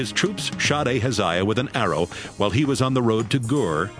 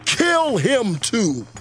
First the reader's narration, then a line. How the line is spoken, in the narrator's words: Jehu shouted